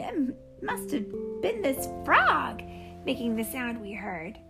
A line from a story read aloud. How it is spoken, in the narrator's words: Fig laughed